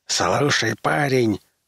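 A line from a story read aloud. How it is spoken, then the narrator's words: Hissed. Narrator (Russian): прошипел Фергюсон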